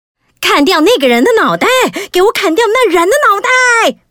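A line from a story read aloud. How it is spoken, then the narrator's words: Hot-tempered queen repeatedly roaring. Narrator (Chinese): 脾气暴躁的皇后不断地大吼着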